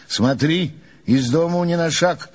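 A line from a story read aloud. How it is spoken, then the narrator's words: Plain. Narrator (Russian): сказал он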